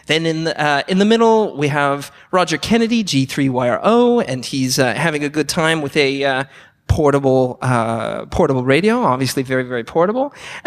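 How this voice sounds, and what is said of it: American accent. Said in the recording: “It's my septic accent getting in the way.”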